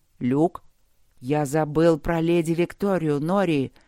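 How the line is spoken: Snake's hiss. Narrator (Russian): прошипел змей

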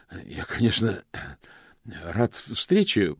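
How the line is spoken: Hoarse rasp. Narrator (Russian): прохрипел он

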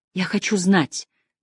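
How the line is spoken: Whisper. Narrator (Russian): прошептала Тесс

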